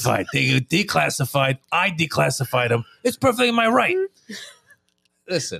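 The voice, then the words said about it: Imitation with a New York accent. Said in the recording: “That was more of a New York accent. You went from Trump to New York.”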